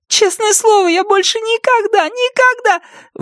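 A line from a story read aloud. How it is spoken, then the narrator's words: Sudden shout. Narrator (Russian): Внезапно она закричала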